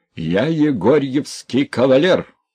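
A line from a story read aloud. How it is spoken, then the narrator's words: Old man shouting. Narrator (Russian): кричал старичок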